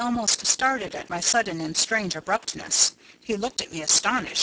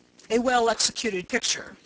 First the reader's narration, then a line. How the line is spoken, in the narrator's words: he said